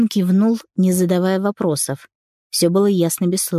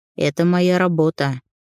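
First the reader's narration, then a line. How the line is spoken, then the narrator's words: Dismissive snort. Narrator (Russian): хмыкнул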